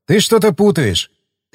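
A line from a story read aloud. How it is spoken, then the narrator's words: Snort, then said. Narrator (Russian): Я хмыкнул, потом сказал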